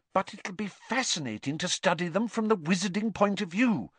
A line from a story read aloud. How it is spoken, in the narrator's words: said Hermione earnestly